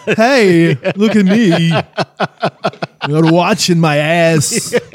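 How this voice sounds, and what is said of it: Christopher Walken impression. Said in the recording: “my impression of Christopher Walken”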